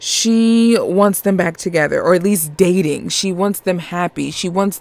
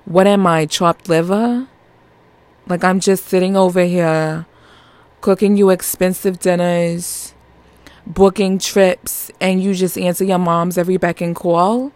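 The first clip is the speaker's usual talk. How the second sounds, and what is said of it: Put-on New York accent. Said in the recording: “I gotta say that my my New York accent”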